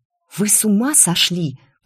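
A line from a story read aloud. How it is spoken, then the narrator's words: Hiss. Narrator (Russian): прошипела я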